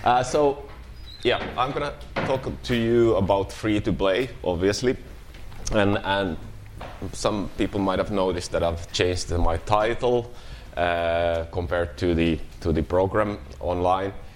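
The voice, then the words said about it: Sick, flu-affected voice. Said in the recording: “As you might hear from my voice, I'm coming down with a flu”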